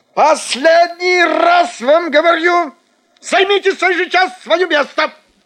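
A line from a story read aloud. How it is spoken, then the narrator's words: Nervous shout. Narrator (Russian): закричал фотограф, и лицо его сделалось очень нервным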